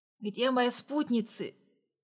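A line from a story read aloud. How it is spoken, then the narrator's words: Hoarse rasp. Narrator (Russian): прохрипел я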